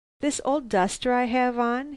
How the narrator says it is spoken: he suddenly laughed

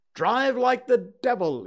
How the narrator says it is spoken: he shouted

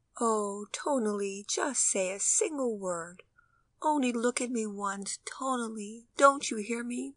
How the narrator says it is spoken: In tender tones, the mother continued mournfully

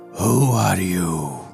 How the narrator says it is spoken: a deep growling voice said

